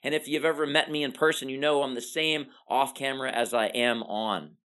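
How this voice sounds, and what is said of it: High-energy, enthusiastic delivery. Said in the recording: “this energy you hear in my voice”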